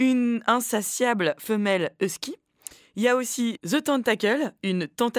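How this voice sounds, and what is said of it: Usual voice. Nothing is said of it.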